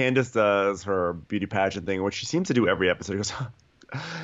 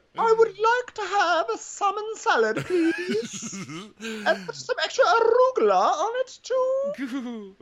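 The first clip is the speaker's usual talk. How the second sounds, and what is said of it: Mimicking someone in high-pitched voice. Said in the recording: “I'm trying to get a really high voice, but it's really hard.”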